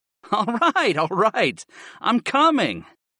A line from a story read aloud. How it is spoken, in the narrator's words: I laughed